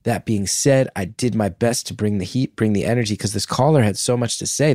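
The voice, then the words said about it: Tired, worn-out voice. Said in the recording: “you guys can hear in my voice, I have been up since 5 a.m. with a sick kid”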